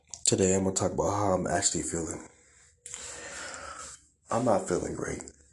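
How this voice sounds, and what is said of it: Voice sounds a little weird. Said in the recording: “I'm sorry if I'm talking like a little weird. I have really bad allergies. It is like really hard for talk... That's why I sound weird. I usually don't sound like this.”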